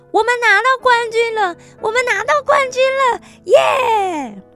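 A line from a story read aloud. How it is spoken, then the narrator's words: Excited shouting. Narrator (Chinese): 罗拉兴奋地大喊着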